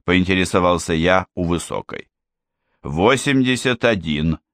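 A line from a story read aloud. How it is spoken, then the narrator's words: Calm answer. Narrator (Russian): спокойно ответила она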